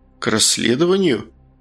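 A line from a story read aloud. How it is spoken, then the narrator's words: Skeptical hmph. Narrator (Russian): Фигаро хмыкнул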